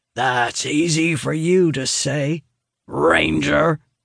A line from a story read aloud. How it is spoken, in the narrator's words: Barriss rumbles, his face growing red with anger